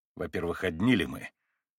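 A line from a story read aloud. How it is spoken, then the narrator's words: Stern rapid question. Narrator (Russian): строго и стремительно спросил Иван Федорович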